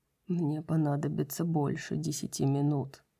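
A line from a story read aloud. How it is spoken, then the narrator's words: Gloomy. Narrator (Russian): мрачно сказал Хант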